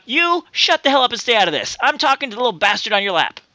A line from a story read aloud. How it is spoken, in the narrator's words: the blonde blurts out